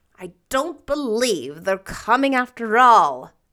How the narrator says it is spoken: said Marilla crossly

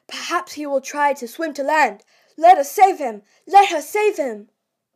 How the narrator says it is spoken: they all simultaneously exclaimed

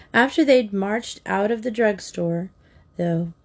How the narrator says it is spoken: Sue sighed

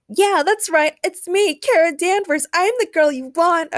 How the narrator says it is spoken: a girl with glasses in the audience shouted

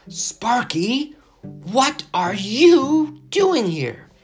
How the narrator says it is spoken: cried Alfie, unable to believe that it had the intelligence to stow away in his luggage

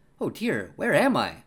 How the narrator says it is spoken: cried she

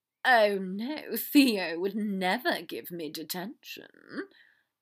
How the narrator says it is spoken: Draco drawled

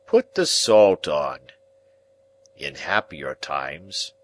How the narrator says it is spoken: Pumblechook mournfully

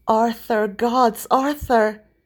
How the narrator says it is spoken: exclaimed Merlin

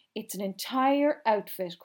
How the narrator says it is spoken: cried Mother

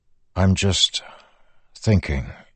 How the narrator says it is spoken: he said, trying to keep his voice even

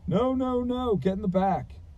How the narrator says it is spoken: the man shouted

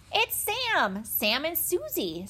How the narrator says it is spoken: said Benny excitedly

